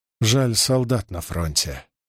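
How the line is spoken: Sighing. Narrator (Russian): вздохнул Гуго

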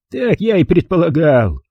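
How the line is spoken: Grumbling. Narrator (Russian): проворчал хозяин

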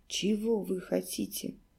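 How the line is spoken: Barely audible repetition. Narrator (Russian): повторила еле слышно

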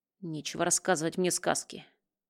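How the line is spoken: Grumbled. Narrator (Russian): проворчал Морей

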